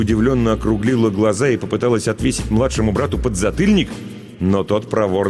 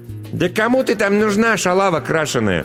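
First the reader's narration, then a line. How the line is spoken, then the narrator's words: Spiteful mocking child. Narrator (Russian): по-взрослому зло съехидничал Коленька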